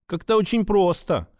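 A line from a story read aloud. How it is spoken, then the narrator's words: Wry grunt. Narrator (Russian): хмыкнул Святогор Николаевич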